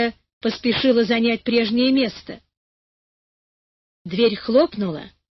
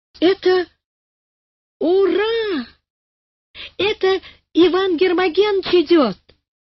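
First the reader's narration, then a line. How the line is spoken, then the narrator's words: Joyful shout. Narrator (Russian): радостно закричал Карик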